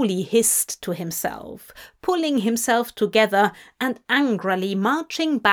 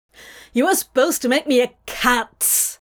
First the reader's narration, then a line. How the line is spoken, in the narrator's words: Crowley snapped